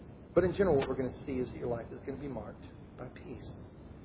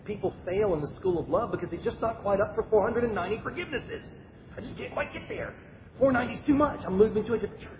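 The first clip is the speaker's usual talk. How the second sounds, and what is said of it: Impression of Kevin Swanson. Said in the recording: “I did my little Kevin Swanson impression. I'm not sure how good it was”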